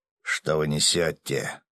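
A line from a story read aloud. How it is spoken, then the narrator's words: Growl. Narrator (Russian): прорычал Ярый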